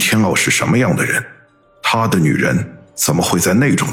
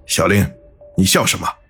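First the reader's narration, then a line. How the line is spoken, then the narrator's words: Deep breath first. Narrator (Chinese): 小道童深吸口气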